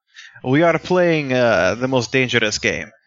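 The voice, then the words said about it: Made-up Russian-sounding accent. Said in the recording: “Is that your best FPS Russia? ... That's my best random accent I picked. ... That's probably a Russian accent.”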